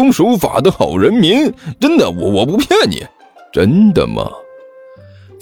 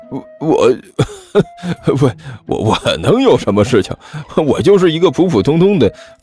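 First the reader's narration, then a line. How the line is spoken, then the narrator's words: Nervous forced laugh. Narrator (Chinese): 人贩子脸色灰白，勉强挤出了一丝笑容，干笑着说道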